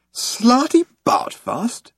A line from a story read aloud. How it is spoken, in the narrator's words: exclaimed Arthur